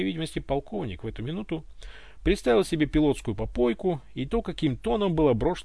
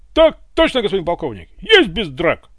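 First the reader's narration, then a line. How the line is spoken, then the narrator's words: Loud bark. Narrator (Russian): гаркнул облеченный Иван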